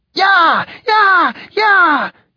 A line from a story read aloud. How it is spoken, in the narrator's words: yelled a pretty young woman